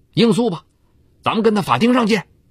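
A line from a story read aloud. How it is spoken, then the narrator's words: Angry. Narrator (Chinese): 李波怒言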